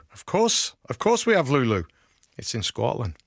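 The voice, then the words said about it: Put-on Scottish accent. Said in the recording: “That's my Scottish accent for you.”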